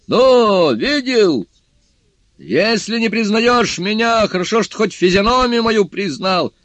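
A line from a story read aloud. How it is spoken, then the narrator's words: Shouting. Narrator (Russian): Джу Бадзе крикнул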